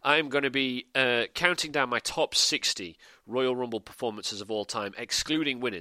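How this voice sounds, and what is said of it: Strained, failing voice. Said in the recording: “Oh man, I'm losing my voice.”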